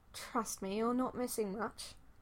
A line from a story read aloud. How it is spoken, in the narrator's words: Loki muttered